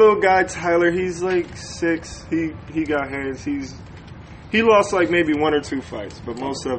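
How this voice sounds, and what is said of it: Usual voice. Nothing is said of it.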